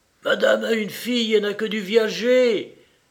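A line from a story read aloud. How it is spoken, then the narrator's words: Shouted. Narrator (French): cria Françoise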